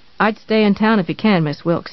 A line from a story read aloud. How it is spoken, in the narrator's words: said